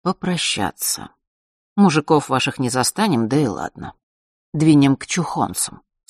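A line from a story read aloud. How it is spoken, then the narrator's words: Plain. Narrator (Russian): сказал он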